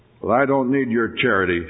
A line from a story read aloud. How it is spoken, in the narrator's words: said Tom stiffly